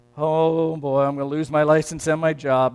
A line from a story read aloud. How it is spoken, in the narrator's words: moans the driver